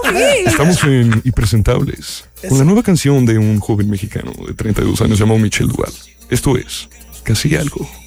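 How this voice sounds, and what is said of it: Radio announcer voice. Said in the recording (Spanish): “con voz de locutor de radio”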